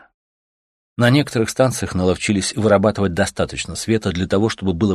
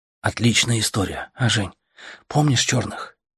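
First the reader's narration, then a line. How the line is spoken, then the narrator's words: Whispered. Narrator (Russian): шептал Артем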